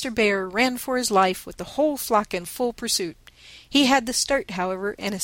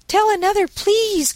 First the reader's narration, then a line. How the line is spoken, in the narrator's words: cried Daisy